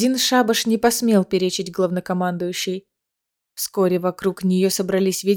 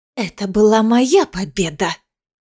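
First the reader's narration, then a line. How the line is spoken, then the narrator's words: Hissed. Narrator (Russian): прошипела Искара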